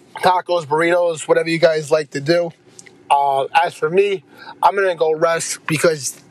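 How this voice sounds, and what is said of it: Congested, stuffy, rough voice. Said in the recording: “as you can hear in my voice, my allergies are killing me... My throat is killing. My nose is dripping.”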